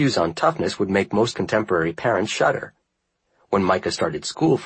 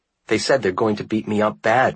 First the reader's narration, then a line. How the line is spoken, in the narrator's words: Micah cried